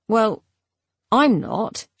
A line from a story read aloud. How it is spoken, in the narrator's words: she said